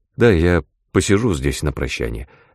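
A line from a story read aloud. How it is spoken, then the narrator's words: Plain. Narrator (Russian): ответил я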